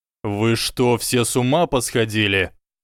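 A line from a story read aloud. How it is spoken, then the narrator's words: Barking shout. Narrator (Russian): Гаркнул Снейп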